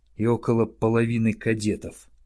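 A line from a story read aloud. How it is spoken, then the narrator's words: Barely audible. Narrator (Russian): еле слышно произнес воевода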